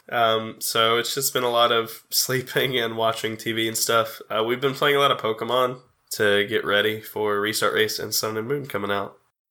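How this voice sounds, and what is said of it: Voice sounds sick. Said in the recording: “I have been sick a lot, which you can probably tell from my voice.”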